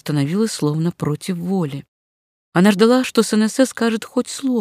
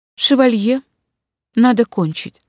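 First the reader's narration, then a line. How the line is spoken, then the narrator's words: Fairly calm. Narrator (Russian): сказала она довольно спокойно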